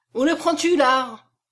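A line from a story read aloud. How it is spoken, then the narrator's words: Angry roar. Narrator (French): rugit Étienne en colère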